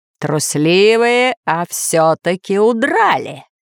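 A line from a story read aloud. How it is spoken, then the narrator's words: Growled. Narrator (Russian): прорычал повелитель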